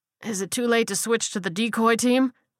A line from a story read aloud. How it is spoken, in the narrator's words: he asked hoarsely